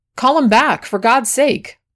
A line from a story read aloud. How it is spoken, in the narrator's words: cried a woman's voice